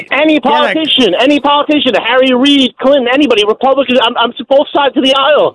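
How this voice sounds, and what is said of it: Yonkers New York accent. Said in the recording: “I just heard your accent ... You just said bad. Where are you from, brother? ... Yonkers.”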